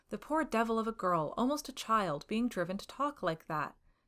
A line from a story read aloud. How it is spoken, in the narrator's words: he exclaimed in horror